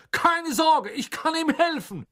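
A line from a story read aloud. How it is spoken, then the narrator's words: Called out. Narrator (German): rief er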